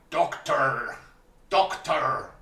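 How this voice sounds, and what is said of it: Weak impression of a character's voice. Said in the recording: “I can't do a good impression.”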